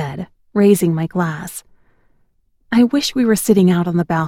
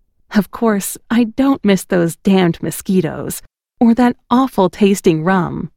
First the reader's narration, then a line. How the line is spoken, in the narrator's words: I laughed